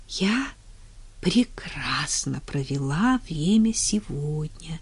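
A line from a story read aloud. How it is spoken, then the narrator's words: Quiet, enchanted tender voice. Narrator (Russian): тихо сказала Уитни, завороженная нежностью, светившейся в его глазах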